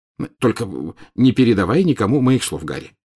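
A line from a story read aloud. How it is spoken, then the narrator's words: Hurried addition. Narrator (Russian): торопливо добавил он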